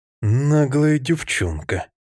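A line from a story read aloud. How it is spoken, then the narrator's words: Through gritted teeth. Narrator (Russian): процедил Мэтти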